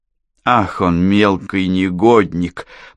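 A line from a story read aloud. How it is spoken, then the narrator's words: Through gritted teeth. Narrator (Russian): процедила она сквозь стиснутые зубы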